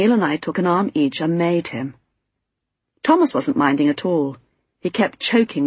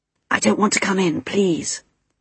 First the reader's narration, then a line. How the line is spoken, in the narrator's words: Stephen whispered to me